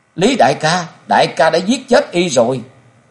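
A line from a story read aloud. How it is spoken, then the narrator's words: Anguished wailing scream. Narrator (Vietnamese): Thu Nhi gào lên thảm thiết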